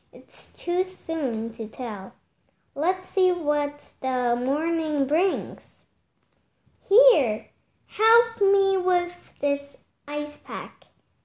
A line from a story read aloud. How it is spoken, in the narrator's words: said Aunt Sophie